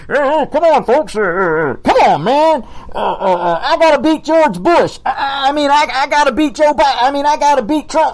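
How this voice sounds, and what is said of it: Imitates another person's voice. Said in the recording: “my Biden impersonation.”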